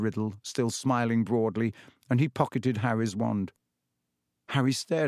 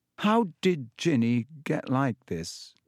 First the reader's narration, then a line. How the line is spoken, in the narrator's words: He asked slowly